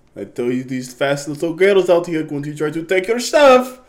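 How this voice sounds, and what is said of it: Put-on accent for a mother. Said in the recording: “Why does the mama have an accent?”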